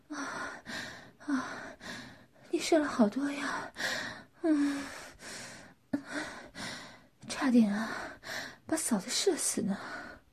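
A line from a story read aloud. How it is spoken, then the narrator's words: Breathless. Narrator (Chinese): 罗琳气喘吁吁地说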